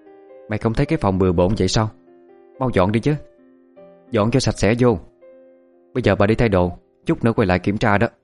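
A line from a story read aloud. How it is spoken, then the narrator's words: Loud scolding woman. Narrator (Vietnamese): Bà Trang ... cao giọng nói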